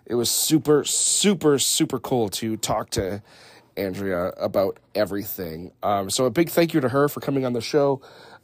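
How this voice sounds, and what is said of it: Slightly raspy voice. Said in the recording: “My voice is a little raspy. I've been battling this damn head cold”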